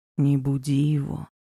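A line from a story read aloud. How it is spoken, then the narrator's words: Quiet request. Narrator (Russian): тихо попросил подошедший ко мне Арго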